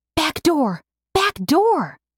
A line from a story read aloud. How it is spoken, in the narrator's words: Mercy whisper shouted